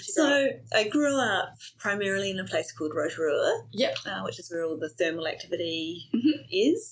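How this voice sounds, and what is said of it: New Zealand accent. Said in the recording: “grew up in New Zealand ... you may have picked up an accent”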